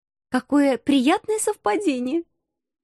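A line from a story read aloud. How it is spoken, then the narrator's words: Irrepressible giggle. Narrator (Russian): хихикнула я, не удержавшись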